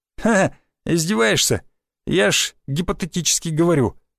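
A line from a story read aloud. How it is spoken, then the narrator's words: Forced laughter. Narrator (Russian): наигранно засмеялся Васян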